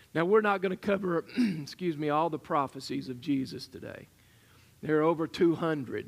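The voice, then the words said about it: Strained, fading hoarse voice. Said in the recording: “my voice is already going”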